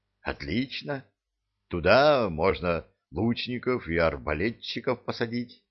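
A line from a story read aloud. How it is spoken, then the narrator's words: Mutter. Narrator (Russian): Пробормотал он, уставившись на кусты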